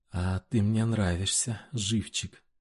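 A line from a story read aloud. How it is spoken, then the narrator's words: Breathy exhale. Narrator (Russian): выдохнула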